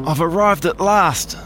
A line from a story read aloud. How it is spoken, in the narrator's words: Snowy exclaimed